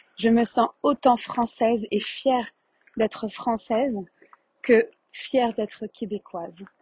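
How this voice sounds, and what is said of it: French accent. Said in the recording (French): “J'ai un accent français”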